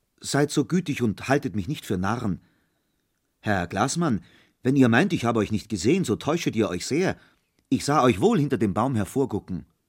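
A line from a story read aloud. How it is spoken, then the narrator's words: Hesitant call. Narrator (German): rief nach einigem Zögern Peter Munk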